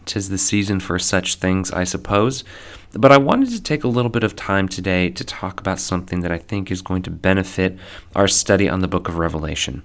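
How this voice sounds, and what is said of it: Strained, hoarse voice. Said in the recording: “as you may be able to tell, I am losing my voice.”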